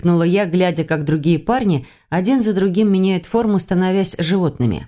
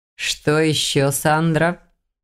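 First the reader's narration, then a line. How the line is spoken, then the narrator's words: Purring. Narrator (Russian): мурлыкнул княжич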